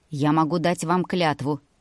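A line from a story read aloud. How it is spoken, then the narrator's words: Calm offer. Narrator (Russian): спокойно предложил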